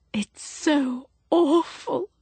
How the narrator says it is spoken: she said unsteadily

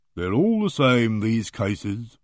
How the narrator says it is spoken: he said in a deep, lugubrious voice like a depressed bloodhound

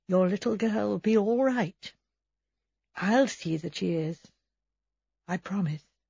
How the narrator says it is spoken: She said very softly under her breath

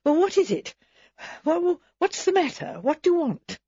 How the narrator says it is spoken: She said a little breathlessly

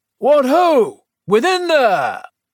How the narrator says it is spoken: She also called out in a stentorian voice

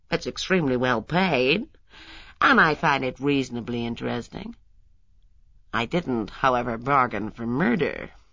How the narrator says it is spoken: she added dryly

